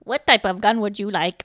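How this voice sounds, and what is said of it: Imitates a basic toy computer voice. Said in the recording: “the desktop computer sounded like Computron, which was this toy ... it would go ... accent I'm trying to do”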